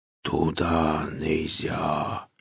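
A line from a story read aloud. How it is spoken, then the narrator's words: Drawn-out deep whisper. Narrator (Russian): донесся протяжный то ли шепот, то ли глухой утробный голос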